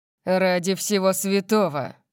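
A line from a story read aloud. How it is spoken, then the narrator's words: Growled. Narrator (Russian): прорычал он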